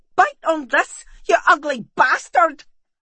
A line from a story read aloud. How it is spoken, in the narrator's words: she yelled